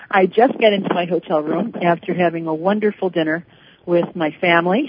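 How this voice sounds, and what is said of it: Slightly out of breath. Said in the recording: “I'm a little out of breath.”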